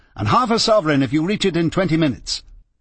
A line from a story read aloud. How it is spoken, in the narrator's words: she cried